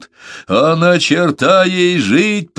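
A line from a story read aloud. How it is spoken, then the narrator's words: Growled. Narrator (Russian): прорычал Беккер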